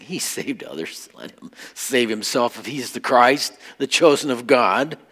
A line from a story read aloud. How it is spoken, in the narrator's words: the rulers with them sneered, saying